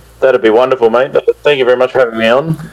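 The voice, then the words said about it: Australian accent. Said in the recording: “the Australian accent,”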